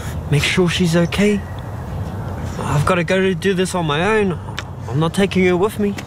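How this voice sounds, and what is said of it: Whispering. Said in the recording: “whispering”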